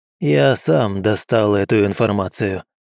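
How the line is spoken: Flat colorless voice. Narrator (Russian): бесцветным голосом сказал Мэйд

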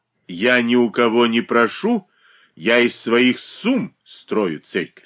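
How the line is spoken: Plain. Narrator (Russian): ответила Дарья Федоровна

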